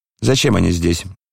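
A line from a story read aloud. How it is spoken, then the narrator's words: Stern address. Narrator (Russian): строго обратился он к камердинеру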